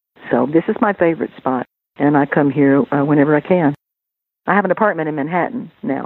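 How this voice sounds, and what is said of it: Southern American accent. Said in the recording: “I haven't lost my Southern accent”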